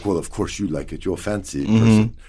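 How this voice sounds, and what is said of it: Weak put-on Jordanian accent. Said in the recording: “That was my Jordanian accent. And it needs a little work. ... A little bit more Arabic touch.”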